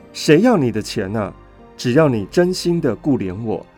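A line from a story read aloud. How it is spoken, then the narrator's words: Low voice. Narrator (Chinese): 低声说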